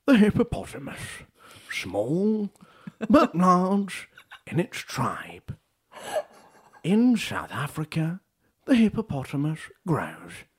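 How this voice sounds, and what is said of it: Nature documentary narrator impression. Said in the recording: “I can do Attenborough. ... That's actually so good.”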